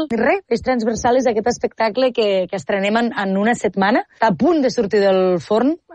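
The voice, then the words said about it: Western Catalan Tàrrega-area accent. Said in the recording (Catalan): “un dels millors accents a Catalunya ... Que és de per Targa, justament”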